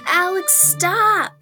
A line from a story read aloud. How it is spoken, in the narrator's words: Ruby giggled and screamed as Alex leapt on her and started vigorously tickling her